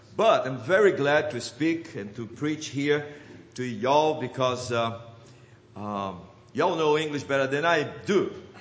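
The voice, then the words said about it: Non-native English accent. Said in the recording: “English has been the fourth language I have to get acquainted with. Therefore, you have to forgive my, not just my accent”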